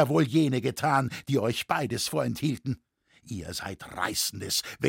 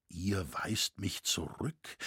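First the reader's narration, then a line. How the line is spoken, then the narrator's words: Soft heartfelt question. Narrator (German): fragte er leise und innig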